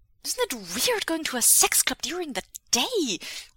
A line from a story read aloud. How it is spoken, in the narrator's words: Wei Wuxian blurts